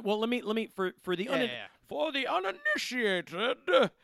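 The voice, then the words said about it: Imitates the villain Bane's voice. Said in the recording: “That was my Bane impression.”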